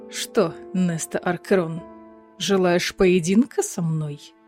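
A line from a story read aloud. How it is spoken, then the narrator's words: Menacing purr. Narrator (Russian): Зловеще промурлыкал он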